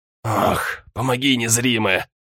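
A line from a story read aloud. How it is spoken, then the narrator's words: Groaned. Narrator (Russian): Простонал Филиппа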